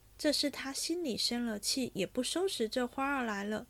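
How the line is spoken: Sighing. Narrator (Chinese): 因叹道

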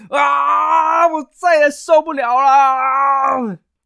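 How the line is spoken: Frantic roar. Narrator (Chinese): 士兵甚至就受不了，他们抓狂的大吼了一声

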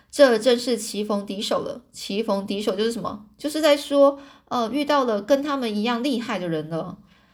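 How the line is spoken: Long sigh. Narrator (Chinese): 这华生啊，长长的叹了一口气，就说着

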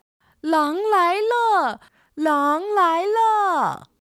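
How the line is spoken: Child shouting loudly. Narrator (Chinese): 放羊的孩子就大声喊

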